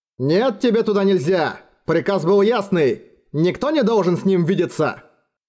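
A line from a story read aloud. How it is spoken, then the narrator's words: Loud, indignant. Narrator (Russian): Кто-то громко и возмущенно говорил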